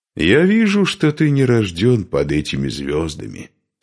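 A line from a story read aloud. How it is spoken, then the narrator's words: Plain. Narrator (Russian): сказал Парс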